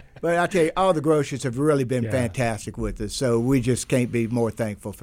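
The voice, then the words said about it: Slight Louisiana accent. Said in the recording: “You got that little Louisiana accent.”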